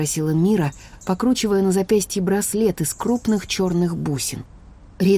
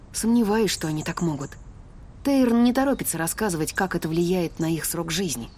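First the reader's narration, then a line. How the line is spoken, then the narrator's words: Quiet admission. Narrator (Russian): призналась тихо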